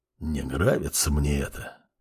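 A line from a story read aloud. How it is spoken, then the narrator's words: Quiet. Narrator (Russian): тихо произнес Арт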